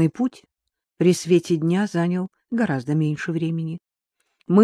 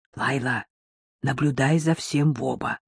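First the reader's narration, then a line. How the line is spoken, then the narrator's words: Father's whisper. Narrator (Russian): шепнул отец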